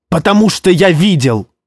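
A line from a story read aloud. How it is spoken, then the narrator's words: Shouting out. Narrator (Russian): выкрикнул Куна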